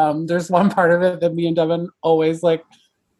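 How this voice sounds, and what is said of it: Usual voice. Nothing is said of it.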